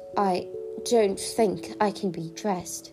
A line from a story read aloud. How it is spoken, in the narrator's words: sighed poor